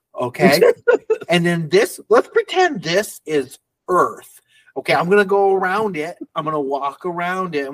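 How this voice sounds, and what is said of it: Imitates another person's voice. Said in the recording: “your impersonation was like weirdly accurate to how Donald Glover played it”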